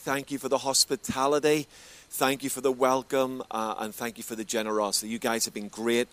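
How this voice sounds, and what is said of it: Northern Irish Belfast accent. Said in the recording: “If you're trying to work out the accent, I'm from Belfast originally in Northern Ireland... It's English, but not as we know it”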